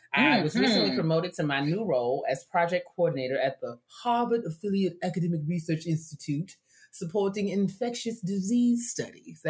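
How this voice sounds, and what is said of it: Put-on posh Harvard accent. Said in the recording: “That's my Harvard accent. ... Oh, that is your Harvard voice? ... That's my Harvard accent.”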